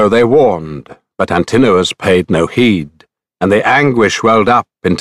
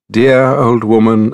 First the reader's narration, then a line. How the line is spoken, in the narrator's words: alert Penelope replied